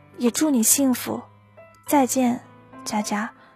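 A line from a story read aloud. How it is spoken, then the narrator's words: Soft. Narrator (Chinese): 轻声地说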